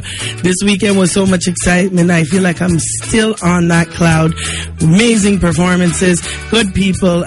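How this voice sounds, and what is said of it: Slightly hoarse voice. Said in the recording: “I'm a little hoarse today”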